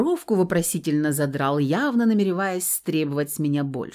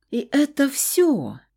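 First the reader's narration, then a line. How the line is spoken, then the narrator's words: Drawled, offended. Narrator (Russian): обиженно протянул мужчина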